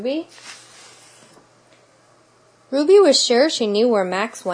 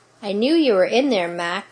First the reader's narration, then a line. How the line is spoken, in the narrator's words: said Ruby